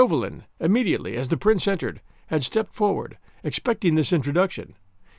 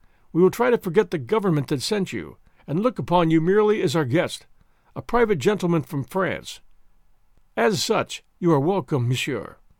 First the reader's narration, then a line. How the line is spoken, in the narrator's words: said his royal highness coldly